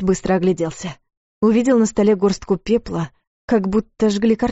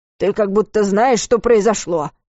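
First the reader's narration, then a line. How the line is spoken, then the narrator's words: Breathless grumble. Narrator (Russian): пробурчал Варус, жадно вдыхая свежий воздух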